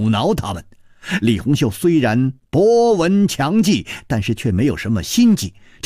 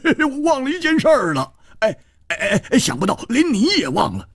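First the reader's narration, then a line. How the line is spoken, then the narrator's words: Laughing. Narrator (Chinese): 胡铁花笑了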